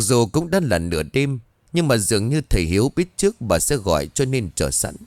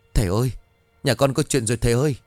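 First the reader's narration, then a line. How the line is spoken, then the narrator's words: Trembling voice. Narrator (Vietnamese): Giọng của bà run rẩy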